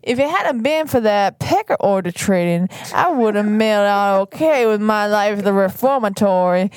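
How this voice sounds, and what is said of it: Put-on Louisiana Southern drawl. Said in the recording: “I feel like you're doing like a Louisiana accent here ... southern draw.”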